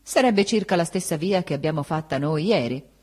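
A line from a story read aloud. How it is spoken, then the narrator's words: Said curtly. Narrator (Italian): Essa disse seccamente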